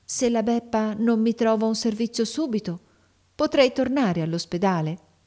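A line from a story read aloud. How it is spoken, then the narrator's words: Quiet, low voice. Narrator (Italian): disse piano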